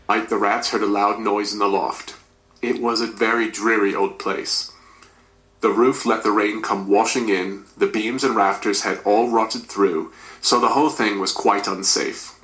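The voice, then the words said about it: Attempted British accent, not fully convincing. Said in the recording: “I'd work on the British accent a little bit, mate... There is a different air placement, and you hadn't changed your placement... you've got some of the dynamics of the language, definitely, of the accent.”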